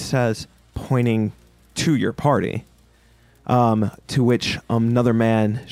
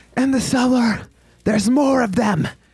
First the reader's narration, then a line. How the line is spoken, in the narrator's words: you hear a woman shout